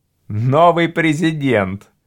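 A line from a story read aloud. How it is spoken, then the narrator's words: Laughing. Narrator (Russian): засмеялся Карл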